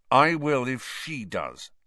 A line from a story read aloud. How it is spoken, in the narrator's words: said Harry through gritted teeth